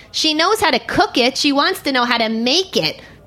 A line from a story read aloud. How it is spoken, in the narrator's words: the lady barked at him